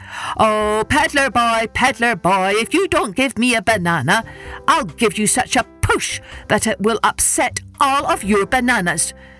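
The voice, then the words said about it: Very loud shouting voice. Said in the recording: “in his loudest voice”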